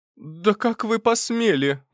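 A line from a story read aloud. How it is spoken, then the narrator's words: Exclamation. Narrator (Russian): воскликнул я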